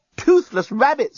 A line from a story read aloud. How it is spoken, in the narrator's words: yelled the journalist